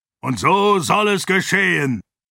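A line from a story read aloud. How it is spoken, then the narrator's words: Roaring. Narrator (German): brüllte er und unterbrach auf diese Weise den Arteten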